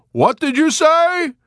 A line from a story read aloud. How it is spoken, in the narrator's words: Yossarian answered in a collapsing voice, weary suddenly of shouting so much, of the whole frustrating, exasperating, ridiculous situation